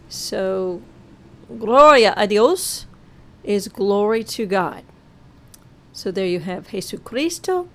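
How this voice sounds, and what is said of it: Slight Arkansas accent. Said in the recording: “I know I have a little Arkansas accent there”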